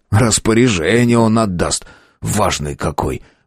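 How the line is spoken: Grumbling. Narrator (Russian): пробурчал Воробей

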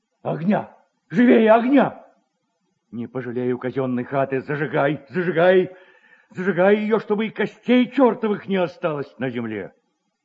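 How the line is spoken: Terrified shouting. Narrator (Russian): Свояченица в ужасе кричала

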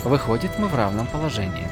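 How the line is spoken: Plain, young woman. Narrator (Russian): сказала девушка

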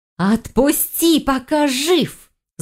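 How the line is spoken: Angry hiss. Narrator (Russian): зло прошипела Магдара

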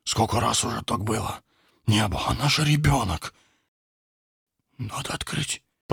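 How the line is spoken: Whisper. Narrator (Russian): прошептал старший из парней

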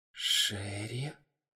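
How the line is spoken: Whisper. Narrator (Russian): Айзек прошептал

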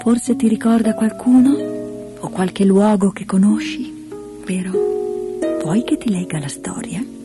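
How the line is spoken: Grandmother speaking gently. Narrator (Italian): La nonna disse dolcemente

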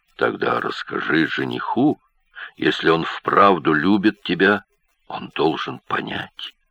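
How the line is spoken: Mumbled. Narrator (Russian): Волюнд пробормотал

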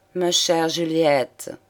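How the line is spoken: Lawyer speaking softly. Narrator (French): prononça doucement l'avocat

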